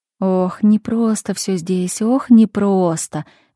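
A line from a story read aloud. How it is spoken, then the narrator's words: Silent inner sigh. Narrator (Russian): мысленно вздохнула Марина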